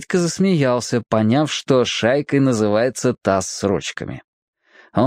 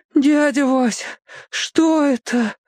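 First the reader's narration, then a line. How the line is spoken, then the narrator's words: Moan. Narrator (Russian): простонал он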